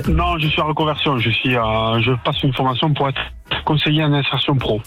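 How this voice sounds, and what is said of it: Southern French accent. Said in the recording (French): “Il y a un accent, là, oui. ... Je suis du midi.”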